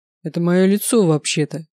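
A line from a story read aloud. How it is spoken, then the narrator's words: Muffled reply. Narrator (Russian): глухо ответил Горовой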